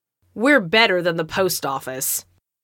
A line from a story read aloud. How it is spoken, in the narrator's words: the Girl Scout sneered back